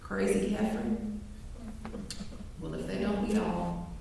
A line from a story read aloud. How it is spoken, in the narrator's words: Others are whispering among themselves